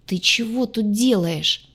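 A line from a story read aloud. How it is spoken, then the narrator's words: Groaning. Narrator (Russian): простонал спаситель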